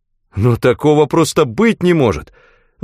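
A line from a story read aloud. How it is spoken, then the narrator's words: Exclamation. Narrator (Russian): воскликнул Дилан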